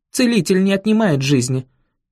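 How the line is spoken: Barking, sharp. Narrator (Russian): рявкнула она

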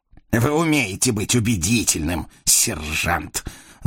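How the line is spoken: Angry snort. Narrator (Russian): злобно фыркнул Жафрей

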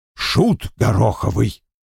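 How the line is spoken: Growling. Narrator (Russian): прорычал Вульф

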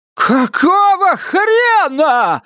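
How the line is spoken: Yelled. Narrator (Russian): заорала Вильма

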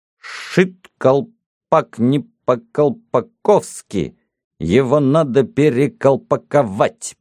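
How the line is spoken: Crisp, fluent enunciation. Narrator (Russian): без запинки отчеканил Гордон

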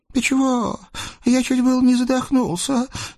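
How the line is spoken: Weak moan. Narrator (Russian): слабо простонал тихий Наум

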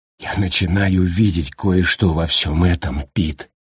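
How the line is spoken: Plain. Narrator (Russian): сказал он

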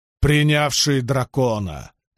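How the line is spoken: Roaring. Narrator (Russian): взревел Мэтт

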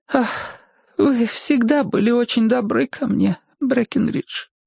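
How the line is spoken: Weak voice. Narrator (Russian): слабым голосом начала она, чуть оправившись

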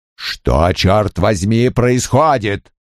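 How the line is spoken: Bark. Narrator (Russian): рявкнул Крэмер

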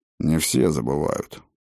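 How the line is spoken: Grumbling. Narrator (Russian): буркнул трактирщик

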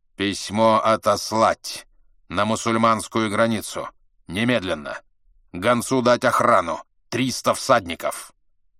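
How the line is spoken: Sharp, clipped. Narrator (Russian): Чингисхан сказал резко и отрывисто

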